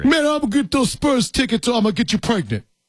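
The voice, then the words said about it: Imitates another person's voice. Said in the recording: “my Tracy Morgan impersonation”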